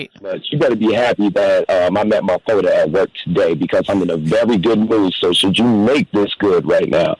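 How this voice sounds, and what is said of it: Exaggerated Black American accent. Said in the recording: “His accent got more. ... be more black. Yeah, black.”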